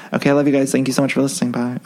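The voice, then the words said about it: Talking very fast, rushed. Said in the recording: “I'm sorry I'm talking too fast. ... I feel like I just rushed through that ending.”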